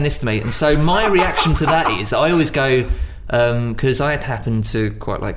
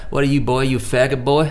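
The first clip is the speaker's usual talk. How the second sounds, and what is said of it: Redneck American accent. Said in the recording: “Redneck ... American.”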